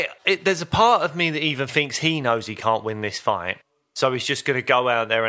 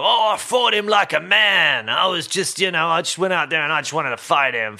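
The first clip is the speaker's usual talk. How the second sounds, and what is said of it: Imitates another person's voice. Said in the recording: “Quite a good impression.”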